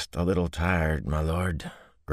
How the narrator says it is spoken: Grady said wearily

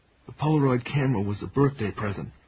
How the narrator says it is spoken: he heard himself saying in that same dry voice

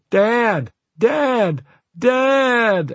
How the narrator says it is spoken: at the top of my lungs

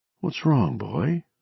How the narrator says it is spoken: she murmured

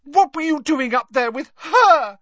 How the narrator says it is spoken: shrieked Lavender Brown

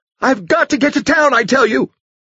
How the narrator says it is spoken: she shrieked angrily

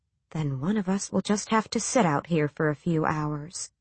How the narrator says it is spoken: whispered

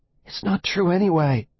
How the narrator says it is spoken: Will gasped

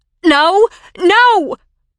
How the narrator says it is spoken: Peggy shrieked

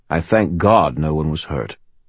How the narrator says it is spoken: he said

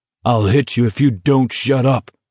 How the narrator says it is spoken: Abraham bellowed

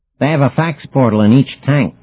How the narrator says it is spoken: cried Demon

